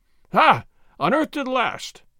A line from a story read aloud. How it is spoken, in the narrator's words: Gonzales cried